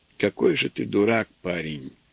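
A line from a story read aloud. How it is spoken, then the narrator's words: Sad and simple. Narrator (Russian): Грустно и просто сказала она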